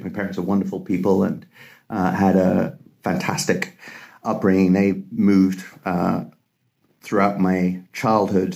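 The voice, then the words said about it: British English accent. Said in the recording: “You can tell from my accent, I was educated in the UK and spent most of my life there”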